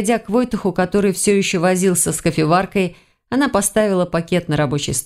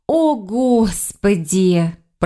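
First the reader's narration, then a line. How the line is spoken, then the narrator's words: Anguished moan. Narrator (Russian): простонала она, страдальчески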